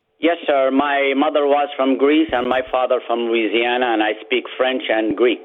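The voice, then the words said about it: Distinctive foreign-sounding accent. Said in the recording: “I love that accent ... you got a wonderful accent.”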